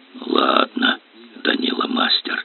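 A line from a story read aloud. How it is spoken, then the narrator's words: Slightly husky youthful voice. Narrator (Russian): с легкой хрипотцой проговорил моложавый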